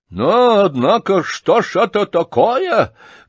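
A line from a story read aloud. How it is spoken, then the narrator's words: Sudden angry exclamation. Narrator (Russian): грозно и внезапно воскликнул рассердившийся Ардальон Александрович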